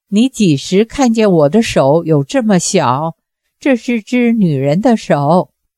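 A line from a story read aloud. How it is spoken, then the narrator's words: Frightened, forced smile. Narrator (Chinese): 方多病浑身冷汗淋淋而下，竟然还能挤出一个极其难看的笑脸，说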